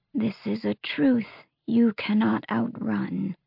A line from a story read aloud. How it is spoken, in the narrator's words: she said, her voice a croak